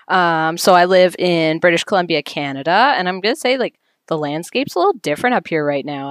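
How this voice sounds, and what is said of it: Rough, sick-sounding voice. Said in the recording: “as you can hear in my voice, I have had a cough for about a week”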